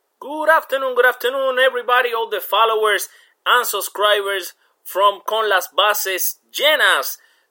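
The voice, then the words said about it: Hoarse, congested sick-sounding voice. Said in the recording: “my voice is not coming out well today. I've been dealing with this uh, terrible flu”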